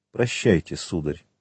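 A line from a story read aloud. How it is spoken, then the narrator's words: Cold. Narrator (Russian): холодно сказала она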